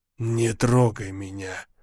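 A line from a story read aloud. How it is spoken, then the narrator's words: Harsh nasty whisper. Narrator (Russian): шепнула она противным жестким тембром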